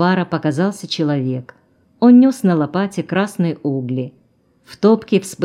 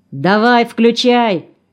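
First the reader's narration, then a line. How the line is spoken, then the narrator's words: Young man shouting. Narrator (Russian): крикнул парень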